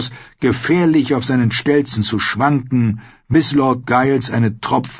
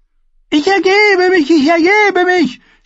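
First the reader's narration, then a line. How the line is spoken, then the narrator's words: Dwarf screaming. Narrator (German): schrie der Zwerg auf dem Boden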